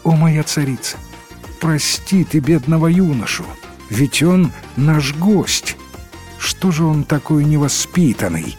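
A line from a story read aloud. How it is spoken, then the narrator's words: Plain. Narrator (Russian): ответила царица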